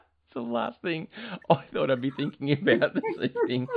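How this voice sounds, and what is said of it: Usual voice. Nothing is said of it.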